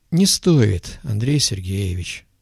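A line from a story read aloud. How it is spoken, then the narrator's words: Calm, herdsman. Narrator (Russian): спокойно произнес пастух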